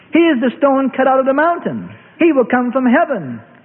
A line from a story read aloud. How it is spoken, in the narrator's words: shouted